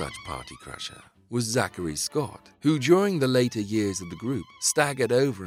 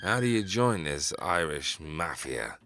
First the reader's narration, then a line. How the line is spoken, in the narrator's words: slurred